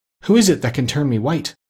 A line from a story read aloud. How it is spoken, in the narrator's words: cried Bumpo, clasping his hands in joy